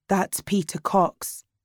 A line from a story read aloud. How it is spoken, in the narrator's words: Ethan said, very quietly